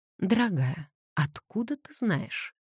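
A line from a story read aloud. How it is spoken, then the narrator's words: Calm question after shaky breath. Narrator (Russian): Хелен судорожно вздохнула, пытаясь унять сердцебиение, и спокойным голосом спросила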